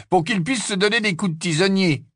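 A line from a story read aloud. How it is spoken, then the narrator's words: Sneered. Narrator (French): ricana Harry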